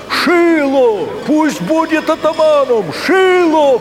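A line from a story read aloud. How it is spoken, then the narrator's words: Crowd shouting. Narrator (Russian): кричали одни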